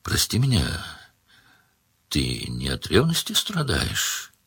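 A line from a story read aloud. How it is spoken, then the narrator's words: Quiet. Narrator (Russian): тихо сказала Маргелена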